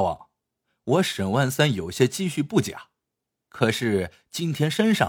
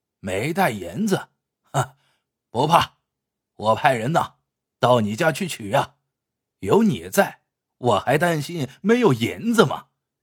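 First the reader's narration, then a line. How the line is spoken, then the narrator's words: Said, then loud laughter. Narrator (Chinese): 金角大王说完，又大笑了一阵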